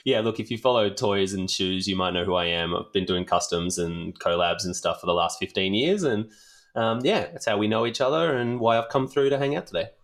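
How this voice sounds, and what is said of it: Australian accent. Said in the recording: “I do have an Australian accent.”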